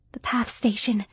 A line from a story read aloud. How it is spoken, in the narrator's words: whispered Sarah